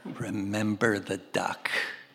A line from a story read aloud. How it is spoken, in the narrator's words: again, she whispered in his ear